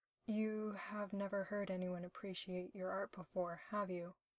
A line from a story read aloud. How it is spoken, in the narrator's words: Will said softly